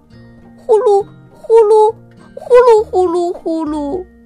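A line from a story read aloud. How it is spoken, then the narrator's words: Frightened cry. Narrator (Chinese): 皮皮害怕的叫起来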